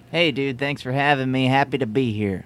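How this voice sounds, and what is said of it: Slight put-on twang. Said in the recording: “you're talking a little bit different. Does anyone hear a little twang in ... voice? ... I'm just trying to adopt a new classical kind of cool way of sounding”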